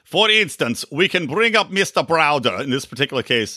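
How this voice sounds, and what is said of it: Brief put-on Russian accent. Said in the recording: “should I do a Russian accent? ... Nah, I'm giving up.”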